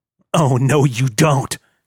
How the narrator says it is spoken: he muttered

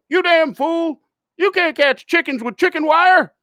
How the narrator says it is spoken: Old man yells

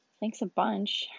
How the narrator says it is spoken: Hermione muttered to herself

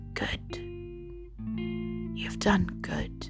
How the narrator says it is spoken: The face in the bark whispered to her

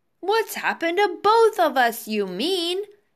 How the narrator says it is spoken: shouted Mr

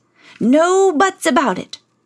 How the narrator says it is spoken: shouted the king

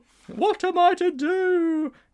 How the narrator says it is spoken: He wailed

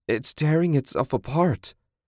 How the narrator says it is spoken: Susan moaned

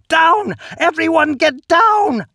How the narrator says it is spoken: screech

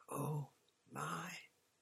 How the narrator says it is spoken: Hermione gasped

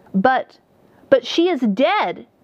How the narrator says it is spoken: exclaimed the charter mage

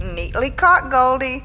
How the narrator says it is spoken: laughed Mr

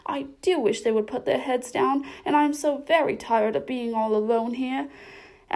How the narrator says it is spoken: cried Alice, with a sudden burst of tears

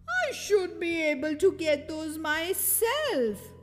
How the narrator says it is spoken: he wailed

